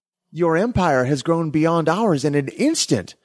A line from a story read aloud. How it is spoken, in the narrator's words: exclaimed the awestruck hive mind